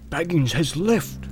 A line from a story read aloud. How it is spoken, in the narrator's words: he answered with a whisper